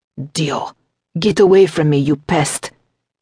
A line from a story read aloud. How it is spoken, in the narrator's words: Salvatore growled